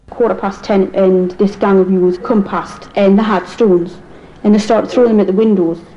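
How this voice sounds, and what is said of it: Strong, hard-to-follow regional accent. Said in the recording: “if the accent's difficult for you”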